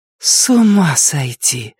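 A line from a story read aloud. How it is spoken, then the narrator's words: Breathless exhale. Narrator (Russian): выдохнула Вика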